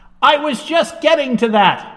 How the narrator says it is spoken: Houdini shouted back

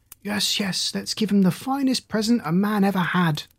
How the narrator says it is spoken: they all cried out, making a great noise

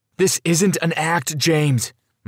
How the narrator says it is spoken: dad shouted

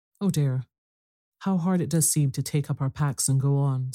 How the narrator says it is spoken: sighed Meg, the morning after the party

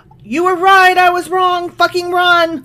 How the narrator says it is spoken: he could have just yelled

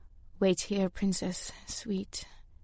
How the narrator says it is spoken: Shyam said, her voice distant and drowsy, like she was drifting into sleep

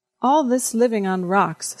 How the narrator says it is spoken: said Constance

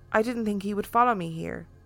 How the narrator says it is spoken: She just calmly looked at me and said

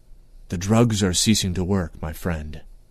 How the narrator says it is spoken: whispered Moonglum

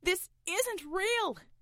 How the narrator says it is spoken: shouted Roy

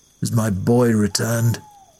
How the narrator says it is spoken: His lordship responded at first with a grunt, then asked

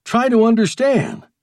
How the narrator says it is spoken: went on harshly

